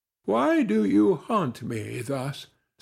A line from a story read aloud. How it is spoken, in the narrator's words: said she in a languid tone, but with a kindlier feeling than she ordinarily permitted herself to express